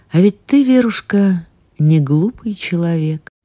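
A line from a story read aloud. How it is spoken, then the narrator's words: Soft. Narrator (Russian): После одной из пауз Грин мягко сказал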